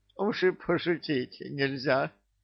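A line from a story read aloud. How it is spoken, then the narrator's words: Whining, normal voice. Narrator (Russian): уже нормальным голосом захныкал его бессмертие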